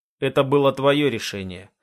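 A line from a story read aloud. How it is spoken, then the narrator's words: Dry reminder. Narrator (Russian): сухо напоминая я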